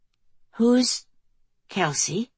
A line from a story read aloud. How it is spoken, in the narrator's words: Lily murmured